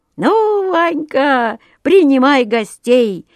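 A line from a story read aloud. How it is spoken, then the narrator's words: Cheerful. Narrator (Russian): весело заговорил Петрушка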